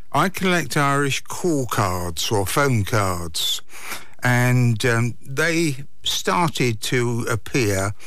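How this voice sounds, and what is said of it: English accent. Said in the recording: “originally from England ... I haven't lost the accent anyway. I will never have a Kerry accent.”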